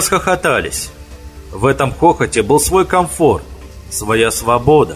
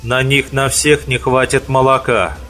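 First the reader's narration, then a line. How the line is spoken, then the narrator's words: Calm objection, fox. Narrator (Russian): спокойно возразила лис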